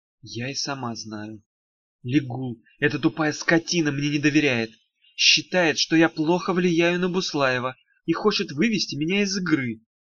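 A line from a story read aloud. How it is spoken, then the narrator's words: Quiet. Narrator (Russian): тихо сказала Даф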